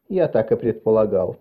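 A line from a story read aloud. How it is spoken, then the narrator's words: Unnaturally calm. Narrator (Russian): произнес неестественно спокойным голосом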